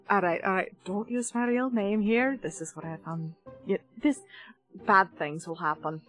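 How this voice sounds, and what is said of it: Whispering. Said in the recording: “I'm just going to whisper”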